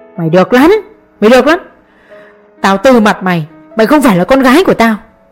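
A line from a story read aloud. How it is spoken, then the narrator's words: Hoarse shouting. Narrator (Vietnamese): Ông vừa ôm ngực hét đến khàn giọng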